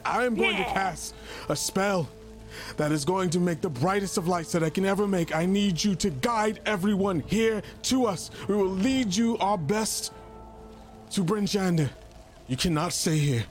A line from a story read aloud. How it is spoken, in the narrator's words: he's going to start screaming, and he's going to say